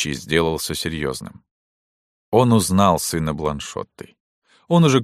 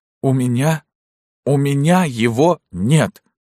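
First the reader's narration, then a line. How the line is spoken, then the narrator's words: Child sobbing, strained reply. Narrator (Russian): Горестно всхлипывая, ребенок с усилием ответил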